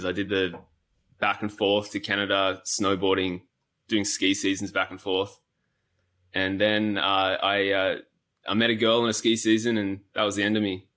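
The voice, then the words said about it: Australian accent. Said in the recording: “your accent's obviously Australian or New Zealand? ... Australian, yeah.”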